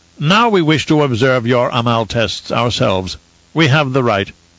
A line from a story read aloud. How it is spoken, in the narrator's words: Zaf announced in a pompous tone